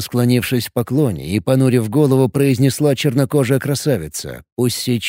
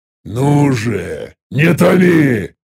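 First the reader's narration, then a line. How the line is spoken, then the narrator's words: Growled. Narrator (Russian): Рыкнул я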